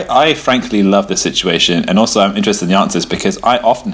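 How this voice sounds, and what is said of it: Usual voice. Nothing is said of it.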